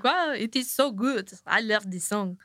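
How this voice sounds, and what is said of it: Put-on French accent. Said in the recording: “That's my French accent. ... It's good. ... It's great.”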